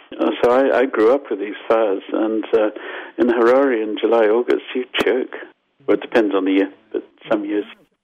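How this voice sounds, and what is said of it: Zimbabwean accent. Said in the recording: “I'm Zimbabwean, as you probably got from my accent.”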